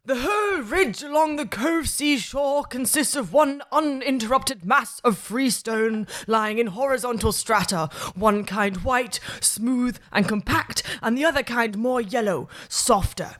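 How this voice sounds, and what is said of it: Put-on Georgian English reading accent. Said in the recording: “You need to do a Georgian English accent.”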